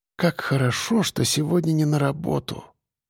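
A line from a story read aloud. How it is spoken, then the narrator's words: Whisper. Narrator (Russian): прошептала она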